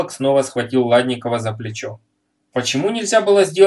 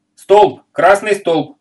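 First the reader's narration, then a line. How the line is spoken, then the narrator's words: Sudden shout. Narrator (Russian): вдруг закричал Масенин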